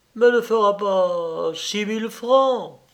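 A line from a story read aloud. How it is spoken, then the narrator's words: Protesting. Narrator (French): protestai-je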